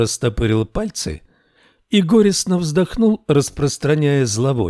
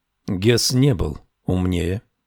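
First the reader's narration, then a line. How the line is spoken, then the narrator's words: Quiet speech. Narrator (Russian): тихо сказал Гарри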